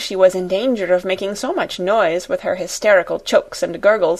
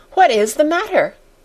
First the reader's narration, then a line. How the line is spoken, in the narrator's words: cried two or three voices at once